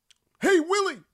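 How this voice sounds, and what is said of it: Alf impression. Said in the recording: “That's your Alf impression? It's pretty good.”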